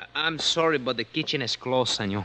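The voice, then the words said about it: Man speaking with foreign accent. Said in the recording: “a little balding man with an accent”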